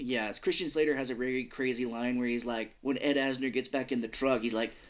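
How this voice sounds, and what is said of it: Usual voice. Nothing is said of it.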